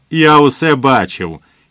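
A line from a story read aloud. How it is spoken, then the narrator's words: Hysterical scream. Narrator (Ukrainian): істерично закричав він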